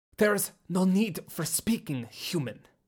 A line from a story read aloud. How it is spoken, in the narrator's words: Soomblach snarled